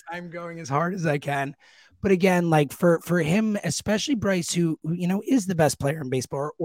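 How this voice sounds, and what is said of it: Strained, failing hoarse voice. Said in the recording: “my voice is, I'm so sorry. My voice is dying.”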